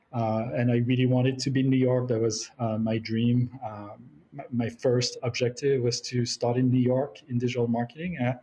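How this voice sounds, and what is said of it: French accent. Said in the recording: “I'm French, as you can tell by the accent”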